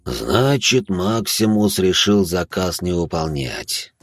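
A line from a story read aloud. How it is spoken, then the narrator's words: Sigh. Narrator (Russian): вздохнул он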